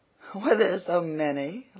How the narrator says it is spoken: laughed Alan

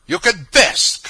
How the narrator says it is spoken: cried the angry woman

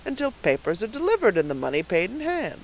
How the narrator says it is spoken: said the purchaser with a chuckle

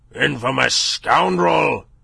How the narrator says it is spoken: he roared

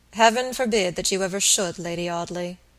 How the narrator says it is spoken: Robert said gravely

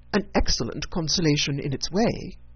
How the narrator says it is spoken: said Elizabeth

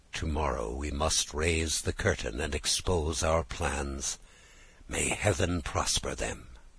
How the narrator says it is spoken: he spoke to himself in an undertone

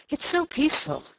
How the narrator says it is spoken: she said, as if in explanation of her sigh

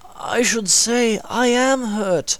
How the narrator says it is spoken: replied Solomon with a groan

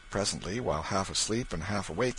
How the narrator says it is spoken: he murmured

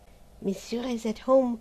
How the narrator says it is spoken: quavered the old concierge

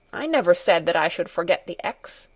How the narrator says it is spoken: said crossly

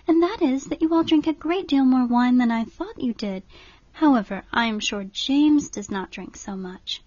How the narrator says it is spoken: said Catherine warmly

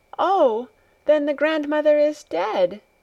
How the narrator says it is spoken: she cried out

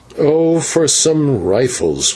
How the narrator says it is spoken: groaned

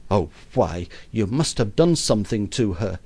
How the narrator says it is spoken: says the mother indignantly

